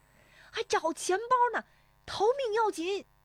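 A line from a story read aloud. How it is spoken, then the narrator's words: Shouting while running. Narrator (Chinese): 史丽华边奔边喊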